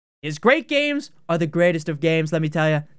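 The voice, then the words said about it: Bad Donald Trump impression. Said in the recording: “That was a bad Trump impression.”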